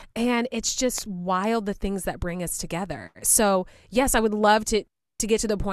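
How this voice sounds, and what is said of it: Usual voice. Nothing is said of it.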